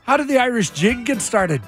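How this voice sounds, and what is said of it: Thick put-on Irish accent. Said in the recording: “Irish accent ... Now you're going thicker just to show me up.”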